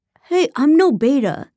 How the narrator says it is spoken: Ethan yelled

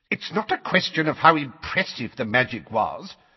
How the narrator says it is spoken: said Fudge in a testy voice

